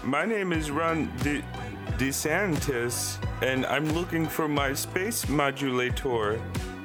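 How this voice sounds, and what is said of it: Marvin the Martian cartoon voice. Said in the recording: “your impression as Marvin the Martian as Ron DeSantis”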